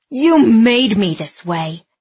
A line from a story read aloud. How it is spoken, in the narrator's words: Andy snarled